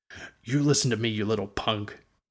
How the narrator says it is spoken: Ward growled

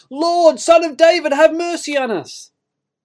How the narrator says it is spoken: shout out

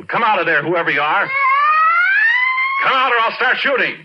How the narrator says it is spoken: I yelled

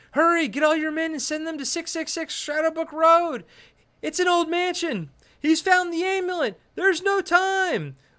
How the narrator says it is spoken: John Grease is yelling

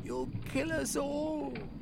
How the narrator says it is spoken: Eustacia cried

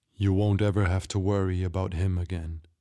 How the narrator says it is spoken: he said

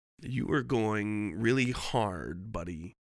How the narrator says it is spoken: the man said

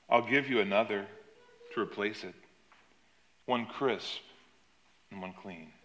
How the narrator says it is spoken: in a very gentle voice, he said to her

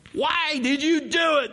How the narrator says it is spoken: They groaned

